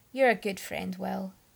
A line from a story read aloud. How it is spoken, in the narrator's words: Merlin acknowledged gravely